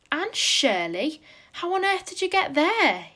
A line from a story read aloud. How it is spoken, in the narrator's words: he exclaimed